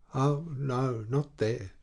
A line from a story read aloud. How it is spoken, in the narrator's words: said in a faltering voice